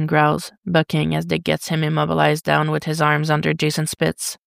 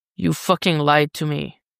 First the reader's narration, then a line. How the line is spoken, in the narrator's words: Jason growls